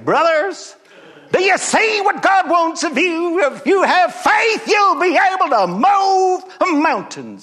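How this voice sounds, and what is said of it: Put-on Southern preacher accent. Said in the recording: “I'd get a southern accent”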